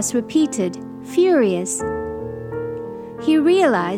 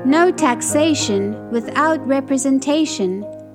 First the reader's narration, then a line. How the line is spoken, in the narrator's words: Amos sometimes called out along with the angry citizens